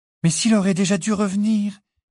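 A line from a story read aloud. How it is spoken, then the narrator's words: Small anxious voice. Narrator (French): dit Hermione d'une petite voix anxieuse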